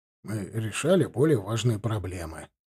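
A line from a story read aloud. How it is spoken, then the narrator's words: Grumbling mutter. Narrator (Russian): буркнул Уайнбергер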